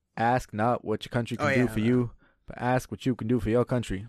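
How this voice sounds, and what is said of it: JFK impression. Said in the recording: “your impersonation ... JFK quotes”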